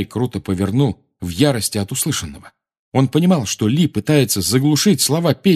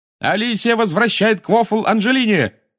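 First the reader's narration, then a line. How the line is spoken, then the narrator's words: Loud shout. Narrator (Russian): закричал Ли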